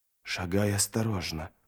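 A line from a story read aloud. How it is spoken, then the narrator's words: Whisper. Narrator (Russian): прошептал он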